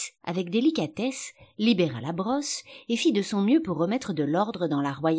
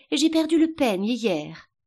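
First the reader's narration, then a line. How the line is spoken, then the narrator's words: Queen sighing. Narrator (French): dit la reine dans un soupir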